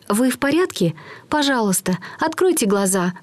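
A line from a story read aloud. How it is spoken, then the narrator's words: Pleading. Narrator (Russian): взмолилась она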